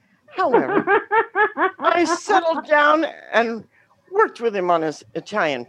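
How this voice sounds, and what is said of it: Usual voice. Nothing is said of it.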